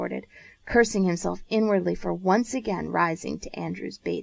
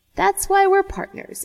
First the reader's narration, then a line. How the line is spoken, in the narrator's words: Andrew said